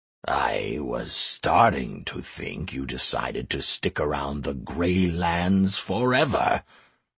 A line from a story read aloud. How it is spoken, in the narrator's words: came the grumbling voice of the old goblin